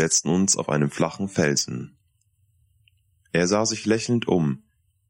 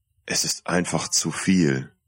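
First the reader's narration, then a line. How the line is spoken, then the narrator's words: Groaning. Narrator (German): stöhnte ich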